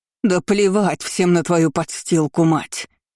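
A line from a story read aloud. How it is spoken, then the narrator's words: Venomous hiss. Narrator (Russian): зашипела служанка, ядовито сощурившись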